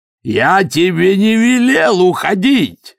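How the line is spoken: Yelling over forge noise. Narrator (Russian): заорал Силорук, перекрывая шум в кузнице

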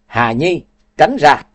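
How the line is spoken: Shouting while running. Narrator (Vietnamese): Cố Lăng Vũ chạy tới hét

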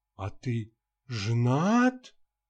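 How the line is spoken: Disappointed drawl. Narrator (Russian): разочарованно протянула юная леди

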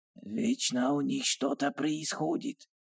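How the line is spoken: Quiet. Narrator (Russian): тихо произнес

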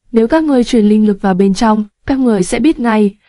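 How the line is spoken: Smiling. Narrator (Vietnamese): Lữ Thiếu Khanh mỉm cười

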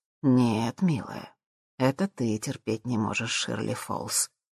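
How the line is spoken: Tender remark. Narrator (Russian): нежным тоном заметил Джим

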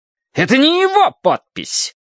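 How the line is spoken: Indignant shout. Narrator (Russian): возмущенно выкрикнул он

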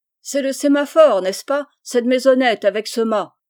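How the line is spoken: Shouted. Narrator (French): cria M

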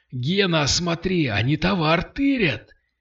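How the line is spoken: Shouted. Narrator (Russian): крикнул Кирилл

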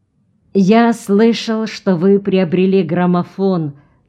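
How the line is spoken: Plain. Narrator (Russian): сказал Карпентер

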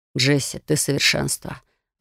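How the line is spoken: Breathless exhale. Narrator (Russian): Выдохнул Яр

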